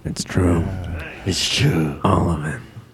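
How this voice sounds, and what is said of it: Harrison Ford impression. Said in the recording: “Harrison Ford.”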